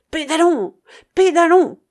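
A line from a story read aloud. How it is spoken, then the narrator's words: Shouting. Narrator (French): cria Will Stanton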